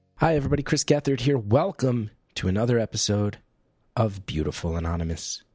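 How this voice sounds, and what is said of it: Voice sounds a little off. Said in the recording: “you can tell my voice is a little off right now”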